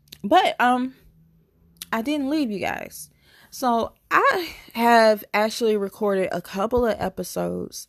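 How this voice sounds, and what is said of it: Groggy, strained voice. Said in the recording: “my voice sounds a little groggy because I have been utilizing my voice a lot ... it's just going to be a little groggy”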